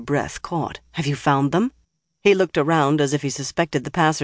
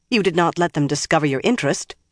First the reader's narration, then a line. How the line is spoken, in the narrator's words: she said sharply